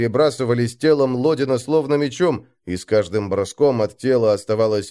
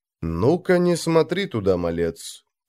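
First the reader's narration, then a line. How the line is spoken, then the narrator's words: Quiet. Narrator (Russian): тихо сказал Снорри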